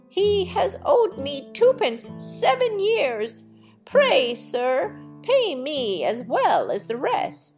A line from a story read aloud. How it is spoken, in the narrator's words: an old woman cried out